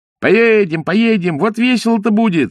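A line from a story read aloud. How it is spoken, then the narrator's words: Boys shouting. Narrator (Russian): закричали мальчишки из телеги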